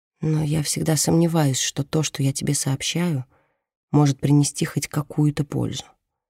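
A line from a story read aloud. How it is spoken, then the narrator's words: Quiet. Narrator (Russian): тихо произносит она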